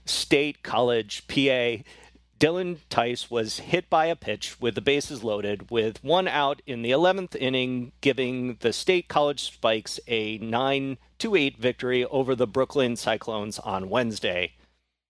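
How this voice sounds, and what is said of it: Robotic artificial intelligence voice. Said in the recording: “in your best artificial intelligence voice”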